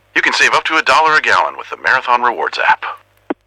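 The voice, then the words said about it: Impression of Max the Bald Eagle. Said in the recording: “Max the Bald Eagle from Marathon ... do an impression of me”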